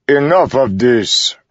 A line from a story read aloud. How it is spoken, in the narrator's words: Rock said, his voice filling the room like captive thunder